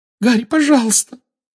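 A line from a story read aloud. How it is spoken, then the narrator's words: Weak squeak. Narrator (Russian): Слабо пискнула Гермиона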